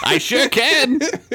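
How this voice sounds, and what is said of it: Old man character voice. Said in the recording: “a voice of a character you made up ... You're just talking kind of like an old man.”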